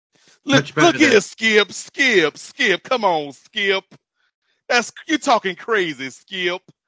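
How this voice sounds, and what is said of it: Shannon Sharpe impression. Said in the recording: “my limited Shannon Sharp impression... the Skip is really good... Everything else just is kind of like a stereotype. But the Skip is like, pitch-perfect Shannon Sharp”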